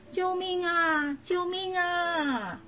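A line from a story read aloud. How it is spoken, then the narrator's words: Panicked shouting while running. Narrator (Chinese): 娜娜 一边跑一边大喊着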